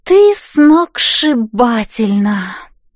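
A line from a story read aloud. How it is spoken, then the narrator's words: Girls' envious drawl. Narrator (Russian): с некоторой завистью протянули девчонки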